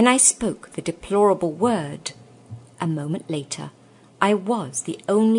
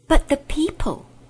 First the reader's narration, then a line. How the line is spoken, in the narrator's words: gasped Diggory